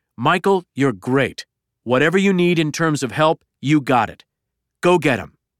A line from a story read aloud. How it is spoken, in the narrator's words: Trump leapt to his feet, exclaiming